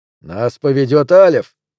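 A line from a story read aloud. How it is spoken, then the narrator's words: Growled. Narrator (Russian): прорычал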